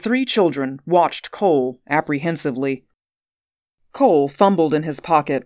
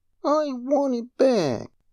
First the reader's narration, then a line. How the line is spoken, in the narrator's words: Stephen said feebly